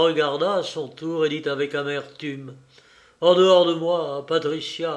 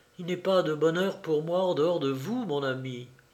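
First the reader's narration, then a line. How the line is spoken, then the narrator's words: Woman murmuring. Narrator (French): Elle murmura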